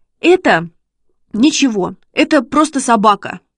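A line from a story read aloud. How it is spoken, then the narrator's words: Babbled timidly. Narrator (Russian): пролепетал Шишкин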